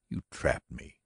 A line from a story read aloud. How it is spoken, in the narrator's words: he said bitterly